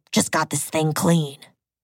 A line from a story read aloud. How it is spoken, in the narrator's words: the man grunted